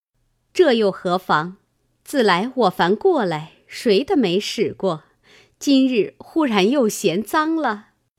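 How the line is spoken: Laughing. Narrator (Chinese): 尤氏笑道

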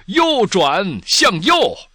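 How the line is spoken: Loud shout. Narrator (Chinese): 他大声喊道

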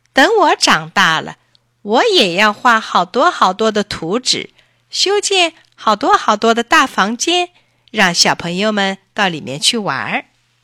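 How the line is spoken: Loud and proud. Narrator (Chinese): 珊珊把胸脯一挺，大声说

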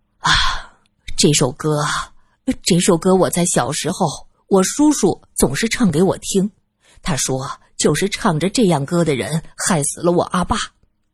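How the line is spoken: Sighing. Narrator (Chinese): 阿康叹了口气，继续说道

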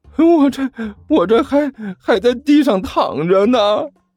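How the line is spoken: Miserable whining. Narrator (Chinese): 甘球哭丧着脸说道

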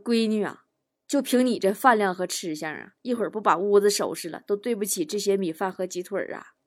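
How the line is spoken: Mother sighing. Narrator (Chinese): 坨坨他妈叹了口气呀，说

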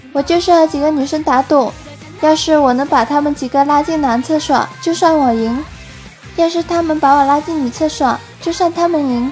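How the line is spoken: Flat, indifferent. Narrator (Chinese): 零点淡淡说道

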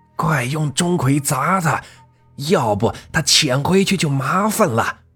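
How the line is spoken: Shouting. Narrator (Chinese): 张法师呼喊着

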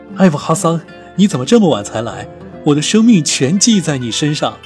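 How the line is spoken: Smiling. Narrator (Chinese): 面上露出笑容，说道

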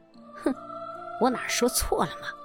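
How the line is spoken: Stunned soft muttering. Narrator (Chinese): 我感到惊愕…自言自语地轻声说

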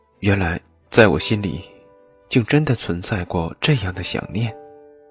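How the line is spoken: Self-mocking murmur to herself. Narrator (Chinese): 布莎忽然露出一个极度自嘲却又恍然的笑容，喃喃自语

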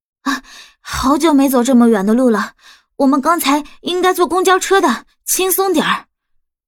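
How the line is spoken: Breathless, self-assured. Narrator (Chinese): 杨小兵一副气喘吁吁的模样，理直气壮的说

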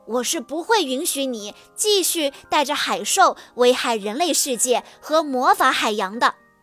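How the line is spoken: Angry and loud. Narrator (Chinese): 想起最近一连串的事件，西雅生气地大声说

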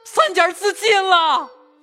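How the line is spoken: Servant clamoring. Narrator (Chinese): 家中小厮吵嚷

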